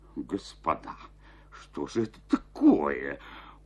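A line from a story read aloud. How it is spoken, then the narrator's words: Stunned mutter. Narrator (Russian): пробормотал Жестяков, обомлев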